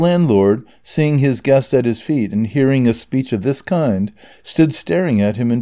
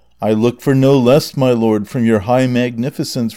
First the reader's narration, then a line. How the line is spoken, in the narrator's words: replied Don Quixote